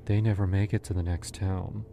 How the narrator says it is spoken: she said, almost sadly

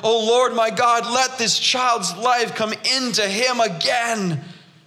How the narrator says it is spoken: cried to the Lord

